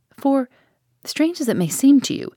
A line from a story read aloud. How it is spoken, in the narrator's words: Mary earnestly continued, the shadow of a past horror revisiting her countenance